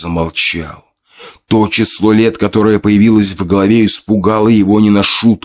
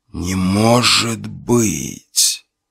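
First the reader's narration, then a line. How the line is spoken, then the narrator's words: Man's quiet moan. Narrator (Russian): Тихо простонал мужчина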